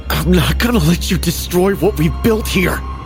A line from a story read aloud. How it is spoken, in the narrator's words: I gasped, my voice a mix of determination and fear